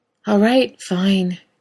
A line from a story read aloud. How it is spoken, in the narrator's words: Dean sighed, long and drawn out